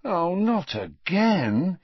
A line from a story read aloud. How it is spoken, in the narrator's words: he groaned